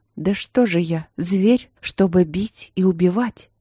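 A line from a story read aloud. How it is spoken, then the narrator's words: Sobbing wolfish growl. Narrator (Russian): зарыдал король от слов этих, зарычал, как волк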